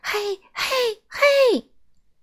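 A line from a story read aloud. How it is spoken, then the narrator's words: Trembling shout. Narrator (Chinese): 颤抖先生边说边发抖，对我大喊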